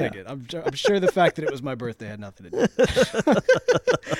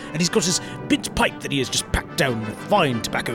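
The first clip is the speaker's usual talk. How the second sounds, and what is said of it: Put-on British accent. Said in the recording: “Recently you've gotten some props on your British accent.”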